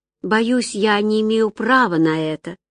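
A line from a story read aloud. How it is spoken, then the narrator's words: Sigh. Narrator (Russian): вздохнула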